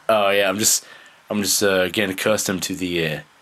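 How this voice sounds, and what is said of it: Good put-on British accent. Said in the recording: “That's a very good British accent.”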